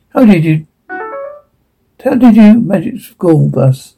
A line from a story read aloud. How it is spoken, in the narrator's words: Cliff chuckling